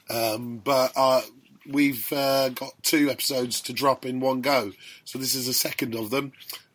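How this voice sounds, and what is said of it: Strained, fading voice. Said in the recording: “my voice is going a bit.”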